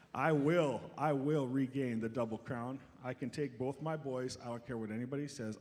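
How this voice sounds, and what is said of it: Strained, damaged voice. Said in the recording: “my voice is pretty bad today because my children attacked me ... crushed and tore my vocal box, my voice box. He actually injured me.”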